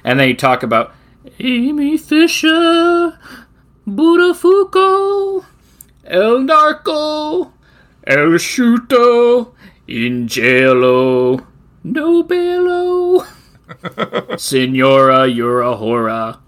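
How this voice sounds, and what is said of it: So-so impression of a singing character. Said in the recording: “Opera Man ... your impersonations ... They're not great, but they're something.”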